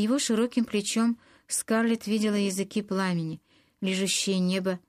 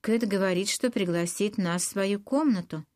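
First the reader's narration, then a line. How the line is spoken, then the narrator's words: Calm. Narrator (Russian): спокойно сказал Ред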